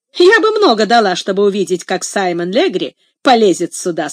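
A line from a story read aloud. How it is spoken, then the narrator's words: Plain. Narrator (Russian): сказала Касси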